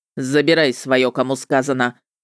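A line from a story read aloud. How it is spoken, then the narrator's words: Sudden bark. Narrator (Russian): рявкнул вдруг он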